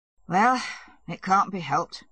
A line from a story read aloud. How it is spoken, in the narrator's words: said Levin, looking gloomily